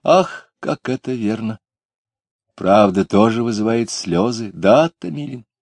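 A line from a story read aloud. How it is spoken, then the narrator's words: Sad. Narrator (Russian): Таня Куликова печально сказала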